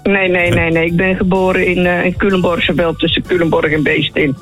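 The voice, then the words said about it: Dutch Betuwe regional accent. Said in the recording (Dutch): “ik hoor een accent wat komt uit de Betuwe ... Ja, ik hoor het toch ... dit is niet helemaal IJsselsteins”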